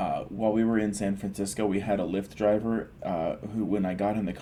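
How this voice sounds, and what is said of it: Usual voice. Nothing is said of it.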